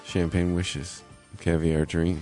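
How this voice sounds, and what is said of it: Rich-toned voice with an accent. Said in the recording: “He did have a rich voice, though. Not in a, like, a financially well-off voice, but an actual, like, rich tone to his voice ... we're suckers for the accent”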